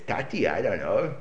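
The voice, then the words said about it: Child's voice, Yiddish accent. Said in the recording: “where did you get the Yiddish accent?”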